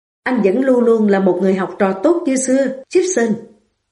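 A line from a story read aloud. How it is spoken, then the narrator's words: Smiling, joking tone. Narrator (Vietnamese): Renwick nở một nụ cười, ông nói bằng một giọng bông đùa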